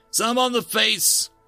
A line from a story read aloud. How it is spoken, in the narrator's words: Gregor taunted